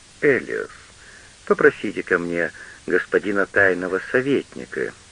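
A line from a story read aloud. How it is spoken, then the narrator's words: Quiet, lady. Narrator (Russian): тихо сказала барыня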